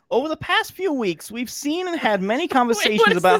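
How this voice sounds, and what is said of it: Put-on Brooklyn / New Jersey accent. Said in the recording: “my corporate voice ... So your corporate voice is a Brooklyn accent? ... It's like a New Jersey accent.”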